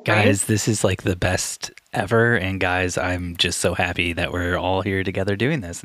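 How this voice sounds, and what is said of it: Put-on American Valley Girl accent. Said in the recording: “our American accents ... full on go for Valley Girl”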